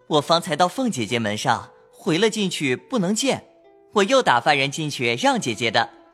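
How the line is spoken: Smiling. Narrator (Chinese): 宝玉笑说

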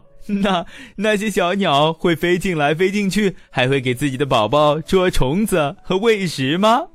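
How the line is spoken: Laughing question. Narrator (Chinese): 海伦 大笑起来，问道

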